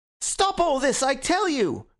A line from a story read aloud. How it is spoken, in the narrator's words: cried Gregory with frantic face